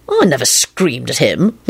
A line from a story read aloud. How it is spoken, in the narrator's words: Lupin said in an offended tone